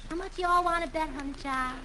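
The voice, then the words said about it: Put-on southern accent. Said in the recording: “a southern accent. ... You won't pick up a southern accent in 3 days.”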